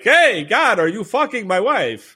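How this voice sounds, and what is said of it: Christopher Walken impression as Tevye. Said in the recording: “I tried to do a Christopher Walken impression and totally missed. I just tried to do Zero Mostel in Fiddler on the Roof and it came out as Christopher Walken ... That is Christopher Walken as Tevye”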